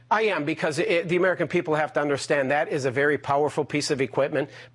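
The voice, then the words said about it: Odd Texas accent, Queens-like. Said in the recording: “That's the damnedest Texas accent I've ever heard... Where do they talk like that in Texas?... is he from, like, Queens, Texas?”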